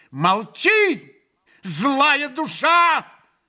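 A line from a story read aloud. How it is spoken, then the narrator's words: Furious shout. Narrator (Russian): яростно крикнул Грушенька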